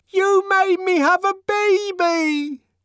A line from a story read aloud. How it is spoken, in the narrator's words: She screamed above the uproar